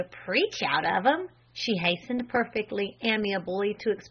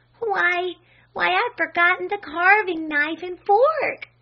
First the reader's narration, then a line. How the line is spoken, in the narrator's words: she cried out in real distress